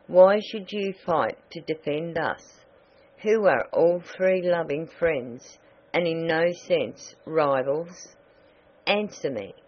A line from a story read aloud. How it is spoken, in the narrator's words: exclaimed the ruler of Oz, in a gentle but chiding voice